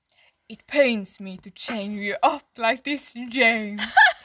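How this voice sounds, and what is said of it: Deep villainous man character voice. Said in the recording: “I don't know how to do a Jafar voice ... Jafar, do a man voice. Okay. Be a man. ... in a fake”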